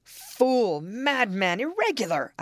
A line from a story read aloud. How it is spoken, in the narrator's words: exclaimed